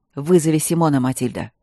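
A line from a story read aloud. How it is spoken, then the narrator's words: Sharp barking shout. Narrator (Russian): рявкнул никогда не повышавший голос барон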